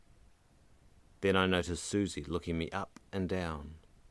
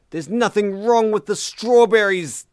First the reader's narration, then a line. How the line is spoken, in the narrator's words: Susie shrieked